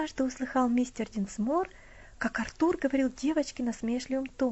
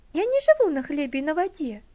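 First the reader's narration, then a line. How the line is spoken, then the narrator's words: Mildly indignant. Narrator (Russian): слегка возмущенно ответила Элси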